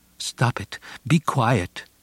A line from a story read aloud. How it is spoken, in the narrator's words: I begged